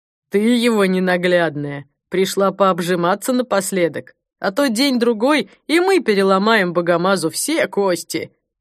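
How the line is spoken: Gloating laughter. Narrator (Russian): Охранник захохотал

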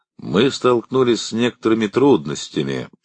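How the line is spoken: Calm. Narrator (Russian): спокойно сказал Шеридан

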